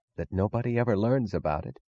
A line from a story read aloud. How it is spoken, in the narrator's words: Wesley Mooch was whispering